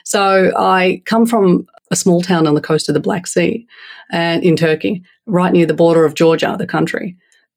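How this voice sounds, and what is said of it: Australian accent. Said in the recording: “my accent, which is Australian”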